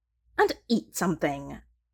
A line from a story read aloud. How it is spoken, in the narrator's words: he snaps